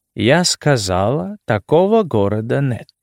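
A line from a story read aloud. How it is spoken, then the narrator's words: Calm repetition. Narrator (Russian): спокойно повторила она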